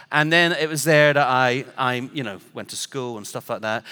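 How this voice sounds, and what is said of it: English accent. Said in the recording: “he's got an English accent. I have ... I just sounded like everybody else”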